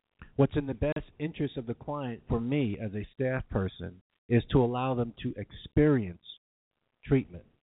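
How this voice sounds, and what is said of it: Speaks with a foreign accent. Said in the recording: “Sorry about the accent.”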